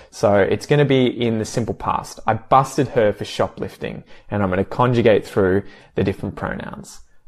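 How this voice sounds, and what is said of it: Strong Australian accent. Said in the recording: “I will do so with a very Australian accent”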